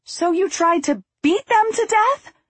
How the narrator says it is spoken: I shrieked

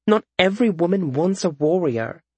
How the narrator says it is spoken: said Nanasi

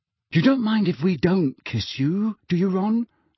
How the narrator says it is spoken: said Fred in a falsely anxious voice

